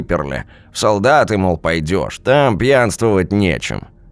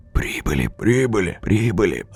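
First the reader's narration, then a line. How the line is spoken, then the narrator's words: Whispers and loud voices. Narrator (Russian): Разносилось шепотом и в голос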